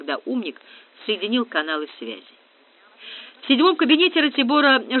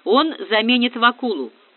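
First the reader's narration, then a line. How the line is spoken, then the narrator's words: Deep booming male voice. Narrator (Russian): пробасил комиссар 2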